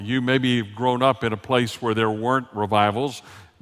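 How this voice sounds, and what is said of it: Southern Texas accent. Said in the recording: “raised in the South, as you can tell every once in a while by my accent. ... you can't ever take the Texas out of the boy”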